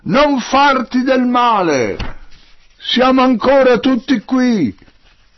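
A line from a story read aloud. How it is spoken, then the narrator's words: Shouting at full voice. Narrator (Italian): Paolo gli gridò con tutta la voce che aveva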